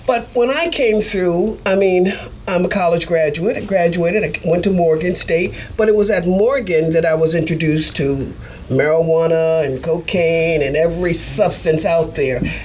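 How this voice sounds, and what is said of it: Slight Baltimore accent. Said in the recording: “I'm from Baltimore, Maryland. ... accent that they put on ... We are known to have a little accent.”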